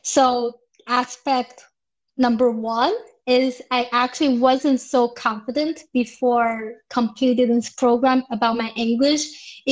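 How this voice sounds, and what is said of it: Non-native English accent. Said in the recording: “I still have accent even now. I understand I have the I don't know whatever accent I have.”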